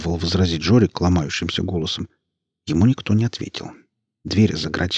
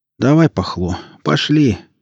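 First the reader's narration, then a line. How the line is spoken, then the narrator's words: Glum. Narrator (Russian): уныло проговорил Жорик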